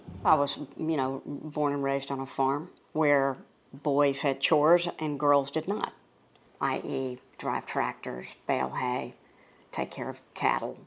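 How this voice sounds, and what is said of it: Distinctive Georgia Southern accent. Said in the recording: “there's no mistaking that distinctive accent. It comes straight from Conyers, Georgia”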